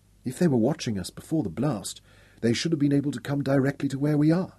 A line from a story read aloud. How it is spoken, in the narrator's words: she whispered